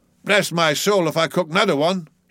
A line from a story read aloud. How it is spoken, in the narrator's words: he growled, angrily